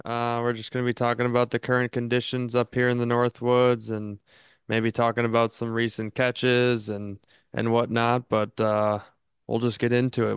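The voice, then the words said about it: Sounds a little tired. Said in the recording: “You sound a little tired”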